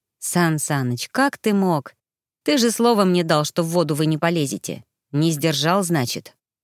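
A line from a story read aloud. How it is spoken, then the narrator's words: Reluctant, sighing. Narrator (Russian): Сын вздохнул, поставил градусник и только потом произнес нехотя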